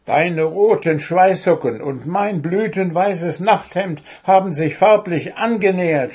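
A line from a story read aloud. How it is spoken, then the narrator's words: Upset shout. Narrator (German): schrie Puh aufgebracht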